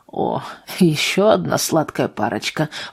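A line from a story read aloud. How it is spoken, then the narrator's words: Curt mutter. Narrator (Russian): буркнул Вальтер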